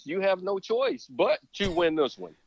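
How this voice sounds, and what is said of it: Imitates another person's voice. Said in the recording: “in my Jesse Jackson voice,”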